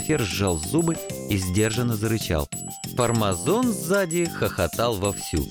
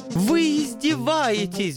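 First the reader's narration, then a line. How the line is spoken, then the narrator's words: Stung, howling. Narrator (Russian): взвыл ангел, видимо, его задело за живое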